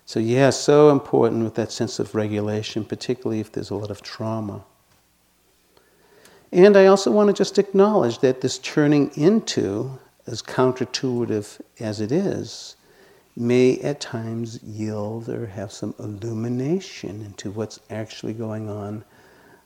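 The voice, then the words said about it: Slight Boston accent. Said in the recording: “you can probably hear by my voice that I still have some residual Boston accent.”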